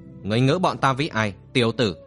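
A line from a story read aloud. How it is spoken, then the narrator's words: Old man's harsh question. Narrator (Vietnamese): Lão trượng trong Song lão chi thủ gằn giọng hỏi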